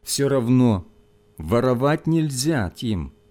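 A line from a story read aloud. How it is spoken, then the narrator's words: Gentle, pitying teacher. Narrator (Russian): мягко сказал учитель, не в силах скрыть жалости к мальчику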